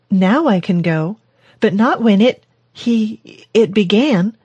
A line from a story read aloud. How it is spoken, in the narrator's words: she stuttered, knowing she should have taken the pills before venting her rage